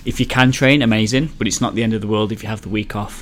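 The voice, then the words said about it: Wolverhampton English accent. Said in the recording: “if you can't tell from the accent, Wolverhampton”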